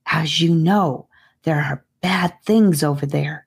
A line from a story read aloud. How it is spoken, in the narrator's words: started to whisper